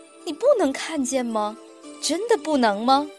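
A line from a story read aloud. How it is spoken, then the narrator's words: Laughing harder. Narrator (Chinese): 高级智慧笑得更厉害，然后说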